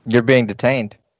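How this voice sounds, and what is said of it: Put-on Australian accent. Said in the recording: “Is that your Australian? Is that your Aussie accent? ... That's my Aussie That's my Outback Steakhouse commercial. ... that's your Tampa Aussie accent.”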